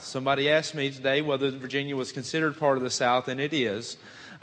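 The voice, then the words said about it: Southern US accent. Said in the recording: “if you haven't figured out by my accent, yes, that is part of the South ... they tell me I have a bad Southern accent”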